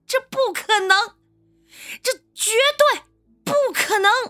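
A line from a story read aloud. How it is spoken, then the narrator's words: Loud cry. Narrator (Chinese): 我大声的呼喊道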